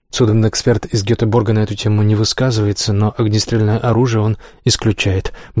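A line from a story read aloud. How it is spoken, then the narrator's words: Quick answer. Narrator (Russian): быстро ответила Урсула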